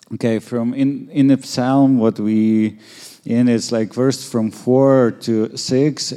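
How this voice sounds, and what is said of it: Noticeable accent in English. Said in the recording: “Maybe he don't like my accent.”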